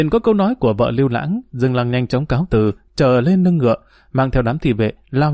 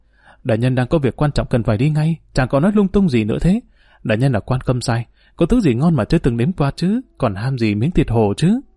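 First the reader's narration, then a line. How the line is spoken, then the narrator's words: Shy, gentle. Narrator (Vietnamese): Vợ của Lưu Lãng thẹn thùng nhẹ nhàng nói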